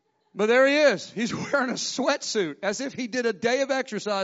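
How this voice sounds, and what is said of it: Usual voice. Nothing is said of it.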